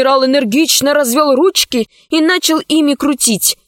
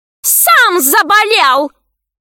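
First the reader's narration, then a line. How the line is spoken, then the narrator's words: Yelled. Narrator (Russian): завопила боевая подруга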